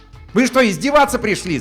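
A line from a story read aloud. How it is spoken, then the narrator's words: Yelling. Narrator (Russian): заорал он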